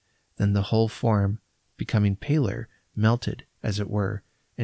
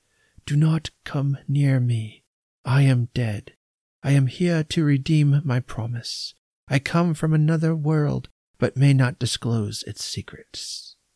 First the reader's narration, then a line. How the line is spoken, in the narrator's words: The appearance replied in a kind of whisper, but very audibly